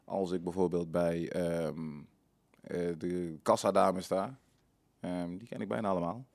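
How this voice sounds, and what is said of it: Brabant Dutch regional accent. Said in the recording (Dutch): “sowieso heb ik altijd een Brabantse tongval”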